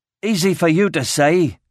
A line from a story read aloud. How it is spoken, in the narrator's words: spat